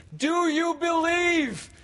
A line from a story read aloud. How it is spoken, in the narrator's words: He cried